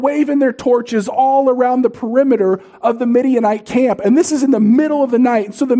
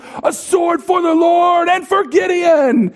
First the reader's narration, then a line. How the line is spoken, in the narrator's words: they shout at the top of their lungs